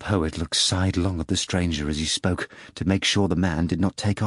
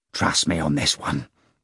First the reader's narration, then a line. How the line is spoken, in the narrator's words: the poet rasped in his ear